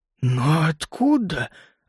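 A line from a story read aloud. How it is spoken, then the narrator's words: Puzzled whisper. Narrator (Russian): озадаченно прошептал Бардан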